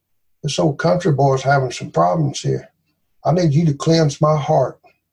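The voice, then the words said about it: Southern US drawl. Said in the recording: “my old southern drawl”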